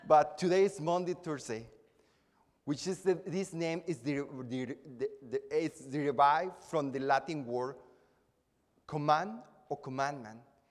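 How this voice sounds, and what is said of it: Speaks with a noticeable accent. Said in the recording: “it sounds like Monday, Thursday if you hear my accent”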